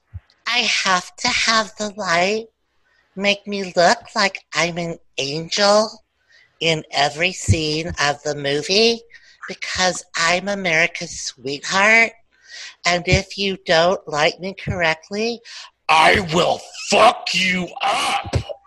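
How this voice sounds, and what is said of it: Imitates another person's voice. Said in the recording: “Would you like to hear my Reese Witherspoon impression? ... That is one of my go-tos.”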